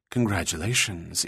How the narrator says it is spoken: Julia leaned close to him and whispered

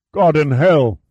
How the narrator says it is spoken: cried

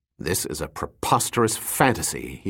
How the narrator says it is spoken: he grumbled

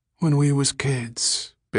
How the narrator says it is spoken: Billy answered dreamily

